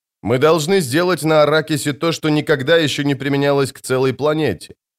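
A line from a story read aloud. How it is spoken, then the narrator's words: Plain. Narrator (Russian): ответил отец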